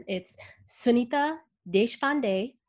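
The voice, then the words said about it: Name pronounced in Indian accent. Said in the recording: “if you want to pronounce it with the Indian accent”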